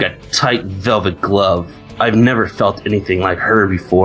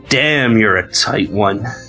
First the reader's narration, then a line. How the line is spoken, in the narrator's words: grunted Minotaur